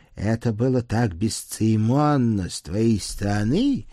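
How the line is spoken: Haughty hiss. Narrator (Russian): надменно прошипел Маркс

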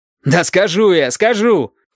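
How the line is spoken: Shout. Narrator (Russian): крикнул Валентин

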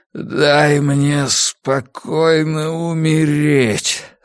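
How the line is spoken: Moan. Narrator (Russian): застонал он

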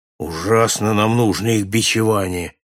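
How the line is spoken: Grumbling. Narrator (Russian): пробурчал Джон Хордль

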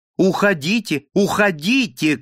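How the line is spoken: Impatient shout. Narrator (Russian): крикнул он нетерпеливо

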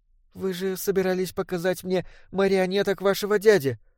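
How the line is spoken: Timid call. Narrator (Russian): робко окликнула она

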